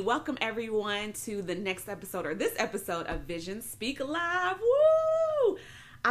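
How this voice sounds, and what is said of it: Excited, energetic voice. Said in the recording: “I'm pumped. You all can tell it in my voice.”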